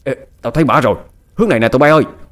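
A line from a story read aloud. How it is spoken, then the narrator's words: Man shouting. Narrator (Vietnamese): Một tên trong số đó hét lên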